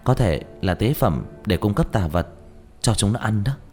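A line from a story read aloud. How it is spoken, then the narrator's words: Puzzled whisper. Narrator (Vietnamese): Diệp Thiếu Dương không hiểu thì thào nói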